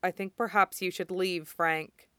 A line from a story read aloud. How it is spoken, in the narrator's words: he said flatly